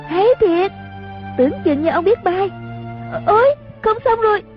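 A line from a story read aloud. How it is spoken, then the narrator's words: Excited cheer with clapping. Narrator (Vietnamese): Chung Linh vỗ tay reo lên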